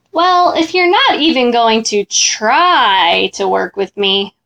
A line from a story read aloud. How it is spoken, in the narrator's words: Mac whined